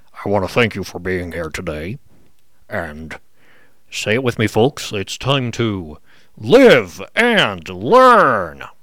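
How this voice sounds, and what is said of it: Impression of a character voice. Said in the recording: “let me attempt to do my best Overlord impression”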